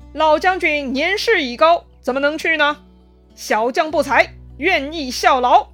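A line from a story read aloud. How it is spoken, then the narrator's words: Loud. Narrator (Chinese): 那个人呐，大声说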